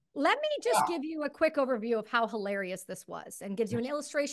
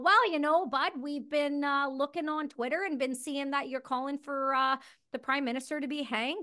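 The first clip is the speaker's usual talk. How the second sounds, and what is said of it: Put-on Canadian accent. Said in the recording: “I'm going to try to do the Canadian accent that I've so desperately lost.”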